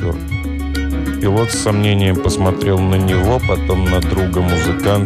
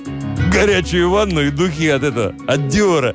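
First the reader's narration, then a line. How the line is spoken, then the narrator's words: Chuckling driver. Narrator (Russian): Шофер хохотнул и добавил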